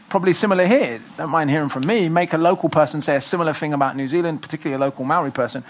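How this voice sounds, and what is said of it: British accent. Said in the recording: “the cool black guy with the British accent ... when they hear my accent”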